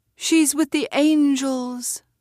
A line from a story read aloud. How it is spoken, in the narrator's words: the voices cried